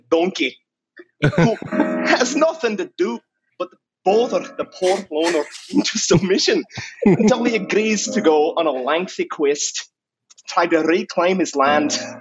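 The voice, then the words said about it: Shrek character voice. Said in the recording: “the best Shrek accent she's ever heard”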